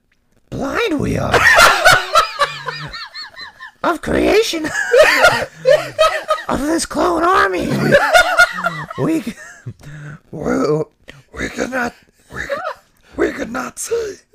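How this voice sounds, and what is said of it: Yoda character voice impression. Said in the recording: “Give me one more try at your Yoda... top five Star Wars impersonations”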